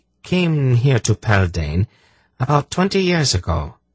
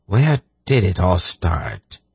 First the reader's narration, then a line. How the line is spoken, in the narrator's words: He sighed